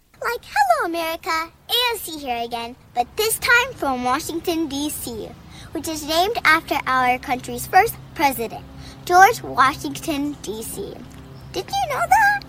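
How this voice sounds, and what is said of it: Child doing an AOC impression. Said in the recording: “a young girl who does this AOC impersonation, and it's really pretty fun. It's really pretty funny.”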